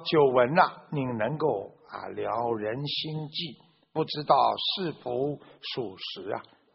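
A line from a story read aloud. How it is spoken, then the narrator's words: Plain. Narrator (Chinese): 他就问了这个三藏法师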